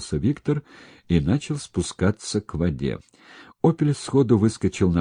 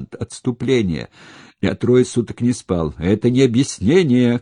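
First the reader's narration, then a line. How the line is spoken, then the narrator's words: Shouting. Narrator (Russian): кричал Крайс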